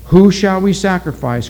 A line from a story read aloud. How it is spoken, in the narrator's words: cried the witch doctor